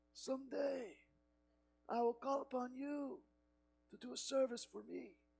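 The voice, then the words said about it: Imitated Godfather-style accent. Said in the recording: “how the Godfather operated ... I worked hard on that accent all week.”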